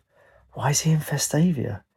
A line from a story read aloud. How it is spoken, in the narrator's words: She whispered to herself